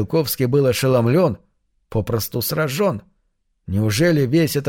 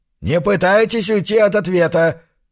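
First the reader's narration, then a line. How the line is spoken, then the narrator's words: Barked. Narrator (Russian): рявкнул домовладелец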